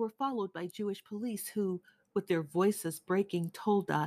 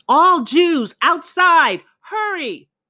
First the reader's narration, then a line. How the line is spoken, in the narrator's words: Hungarian police were yelling in the street nearby